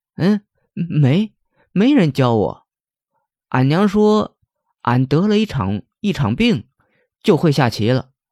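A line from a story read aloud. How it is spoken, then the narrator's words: Silly chuckle. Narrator (Chinese): 阿憨呵呵傻笑道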